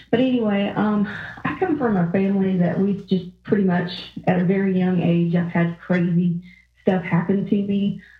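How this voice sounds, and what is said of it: Southern US Georgia accent. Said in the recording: “I'm from Georgia, if you can't tell from the accent.”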